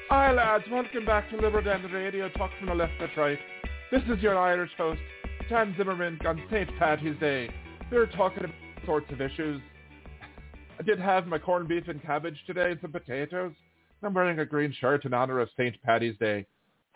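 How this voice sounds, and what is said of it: Put-on Irish accent, Dublin style. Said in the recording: “listening to my terrible Irish accent. ... that's more of a Dublin type of accent. ... my Belfast accent ... talking in my Irish accent.”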